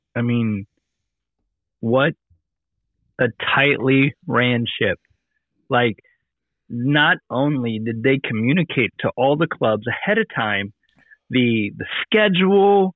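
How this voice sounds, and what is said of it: Worn, strained voice. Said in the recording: “you can hear from my voice. I spent the entire weekend yelling and talking and laughing”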